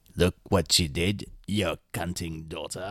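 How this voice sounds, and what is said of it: Imitates another person's voice. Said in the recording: “mocking the voice of the dying man ... That's a good impression”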